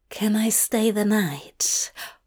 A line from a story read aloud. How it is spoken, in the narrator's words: Hop whispers, in between sips of breath